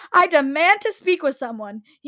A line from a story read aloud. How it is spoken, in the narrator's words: he yelled